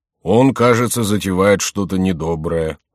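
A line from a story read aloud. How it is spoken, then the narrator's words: Grumbling. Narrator (Russian): проворчал Гуранфло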